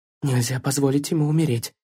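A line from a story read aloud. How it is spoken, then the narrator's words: Muttered. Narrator (Russian): пробормотала она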